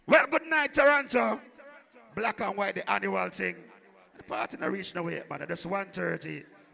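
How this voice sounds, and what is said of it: Losing voice, weak tired voice. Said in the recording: “I'm kind of jet lag a bit. So I lose my voice.”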